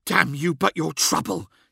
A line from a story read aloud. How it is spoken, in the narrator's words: he hissed